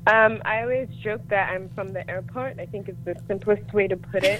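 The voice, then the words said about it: Mixed, hard-to-place international accent. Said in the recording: “We can hear your accent... I call it an airport accent... It's like neither here nor”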